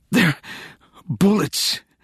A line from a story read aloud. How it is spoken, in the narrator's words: she gasped, the air momentarily crushed from her lungs